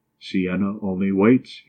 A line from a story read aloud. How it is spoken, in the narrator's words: he replied